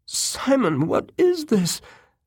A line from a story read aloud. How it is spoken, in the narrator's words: she squealed